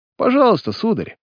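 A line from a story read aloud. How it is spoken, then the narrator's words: Exclamation. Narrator (Russian): кучер заметил его намерение и воскликнул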